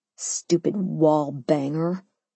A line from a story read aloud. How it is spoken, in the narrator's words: I muttered